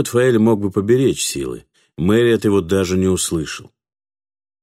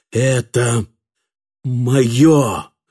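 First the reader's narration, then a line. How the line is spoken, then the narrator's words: Quiet but commanding. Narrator (Russian): сказал тихим, но властным голосом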